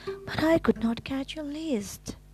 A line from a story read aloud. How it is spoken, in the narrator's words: gasped Frog